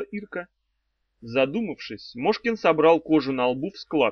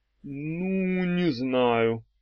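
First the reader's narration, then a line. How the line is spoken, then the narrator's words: Drawl. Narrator (Russian): протянул он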